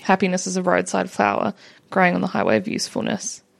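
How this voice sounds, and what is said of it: Thick Australian accent. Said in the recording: “my thick, thick Australian accent”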